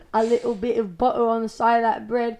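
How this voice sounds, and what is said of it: Put-on British accent. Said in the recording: “best British accent, go.”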